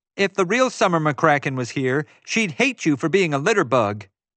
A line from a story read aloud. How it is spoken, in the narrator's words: Summer shouted after him